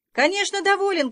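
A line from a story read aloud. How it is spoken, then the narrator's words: Shout. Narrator (Russian): крикнул я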